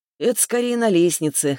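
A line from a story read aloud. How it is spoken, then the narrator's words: Chuckling. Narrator (Russian): хохотнул он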